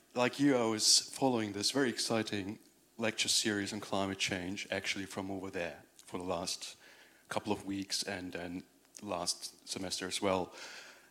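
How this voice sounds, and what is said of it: German accent. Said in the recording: “My accent is German, though”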